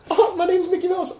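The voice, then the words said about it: Cartoon Mickey Mouse voice. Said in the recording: “I love how I'm Mickey Mouse. I was an amazing Mickey Mouse”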